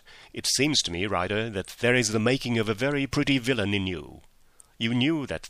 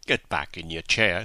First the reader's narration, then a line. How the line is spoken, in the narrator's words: said Holmes sternly